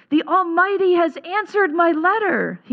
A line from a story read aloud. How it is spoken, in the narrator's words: he cried